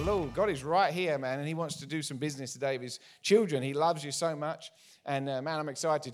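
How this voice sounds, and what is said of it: English accent. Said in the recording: “my accent ... from the UK originally ... haven't lost our accents ... the English accent's cool”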